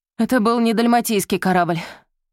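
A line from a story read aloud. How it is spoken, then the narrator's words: Breathless. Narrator (Russian): выдохнул он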